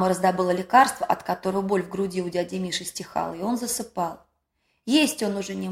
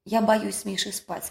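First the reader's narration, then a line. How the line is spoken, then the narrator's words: Plain. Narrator (Russian): сказала мама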